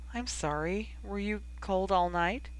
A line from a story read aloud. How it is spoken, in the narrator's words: sighed